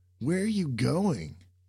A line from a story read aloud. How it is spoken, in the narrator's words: Sam nearly shouted from being so far behind